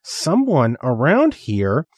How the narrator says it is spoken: raising his voice to a full volume

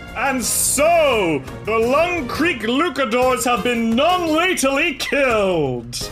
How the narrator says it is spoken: the booming voice of that holographic mount, Malistant the Magnificent, and he says

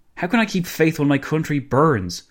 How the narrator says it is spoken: Kerensky blurted out

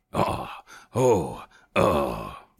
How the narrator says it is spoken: grunted

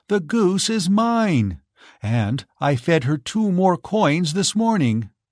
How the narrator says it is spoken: cried Giselle

